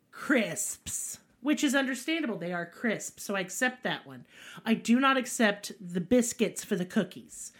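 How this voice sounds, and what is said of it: Country Southern American accent. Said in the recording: “I currently sound like a fucking banjo. I get it. Yeehaw, woo woo.”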